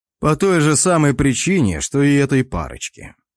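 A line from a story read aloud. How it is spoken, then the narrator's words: Smirking grunt. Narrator (Russian): хмыкнул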